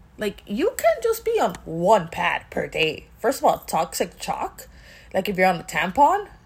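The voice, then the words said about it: Miami accent, mixes CH and SH. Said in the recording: “you know me and the CH and the SH, I always get stuck. It's my Miami accent.”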